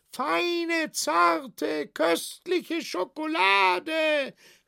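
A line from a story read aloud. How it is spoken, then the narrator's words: Hoarse shouting seller. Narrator (German): schrie der Verkäufer ganz heiser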